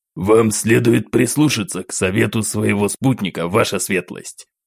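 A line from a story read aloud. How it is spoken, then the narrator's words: Rough smoky voice. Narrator (Russian): грубым прокуренным голосом бросил один из окруживших нас бойцов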